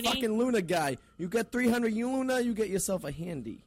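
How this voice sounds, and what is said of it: Boston accent. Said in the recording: “I have a Boston accent.”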